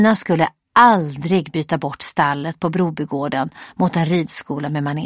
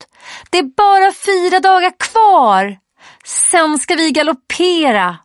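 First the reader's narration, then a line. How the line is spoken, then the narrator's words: Screaming out loud. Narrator (Swedish): När Rosanna får syn på Elina så skriker hon rakt ut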